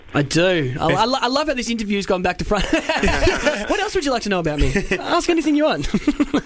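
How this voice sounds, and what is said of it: Australian accent. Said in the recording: “I don't know if you can tell from my accent, but you probably can, that I am from Australia.”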